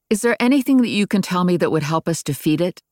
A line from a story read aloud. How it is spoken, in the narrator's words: I asked